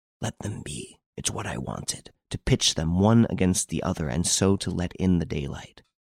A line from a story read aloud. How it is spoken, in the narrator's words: Renine whispered